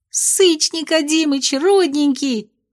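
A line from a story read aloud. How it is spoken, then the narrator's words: Shrill squeal. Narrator (Russian): взвизгнула Майя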